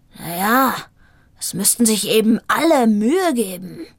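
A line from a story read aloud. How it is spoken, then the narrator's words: Growled reply. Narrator (German): knurrte zurück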